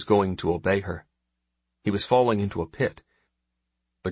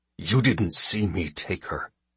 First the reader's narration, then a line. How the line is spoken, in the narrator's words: he snarled